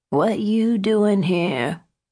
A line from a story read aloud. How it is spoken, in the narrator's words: Henrietta moaned